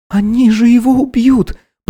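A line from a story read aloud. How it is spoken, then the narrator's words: Horrified moan. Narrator (Russian): простонала Несса с ужасом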